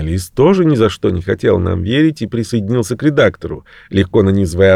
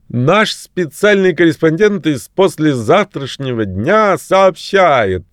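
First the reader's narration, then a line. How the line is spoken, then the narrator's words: Half-shouting journalist. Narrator (Russian): сказал или скорее выкрикнул журналист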